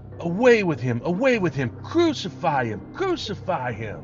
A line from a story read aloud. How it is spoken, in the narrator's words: they cried out